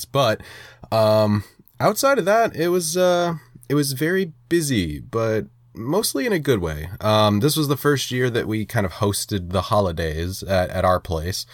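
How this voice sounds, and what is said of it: Slightly nasal, congested voice. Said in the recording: “I am still kind of getting over a head cold ... if I sound a little nasally this episode, then I'm just going to chalk it up to that”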